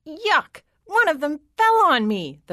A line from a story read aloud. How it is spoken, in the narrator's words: the princess shrieked